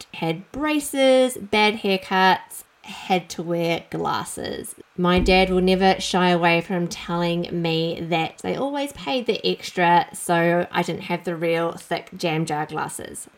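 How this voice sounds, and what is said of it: New Zealand accent. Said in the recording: “I grew up in New Zealand, as you might be able to tell from my accent.”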